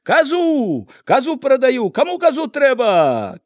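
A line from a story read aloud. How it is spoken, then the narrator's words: Shouting. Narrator (Belarusian): крычаў нехта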